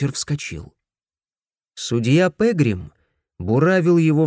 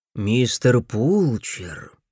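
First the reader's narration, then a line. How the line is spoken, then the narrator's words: Deceptively soft. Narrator (Russian): Обманчиво мягко проговорил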